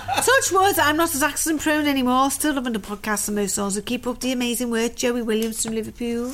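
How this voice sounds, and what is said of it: Put-on Liverpool accent. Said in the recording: “if you don't speak like that, I apologise tremendously, because I love the Liverpoolian accent”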